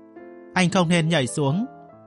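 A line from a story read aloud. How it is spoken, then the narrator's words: Helpless smiling. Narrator (Vietnamese): Mộ Tử cũng mỉm cười, hết sức bất lực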